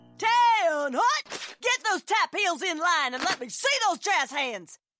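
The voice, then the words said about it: Barking drill instructor voice. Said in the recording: “my impression of a drill instructor directing a musical.”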